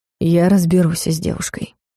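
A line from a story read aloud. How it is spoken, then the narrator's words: Calm. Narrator (Russian): спокойно сказал Дарс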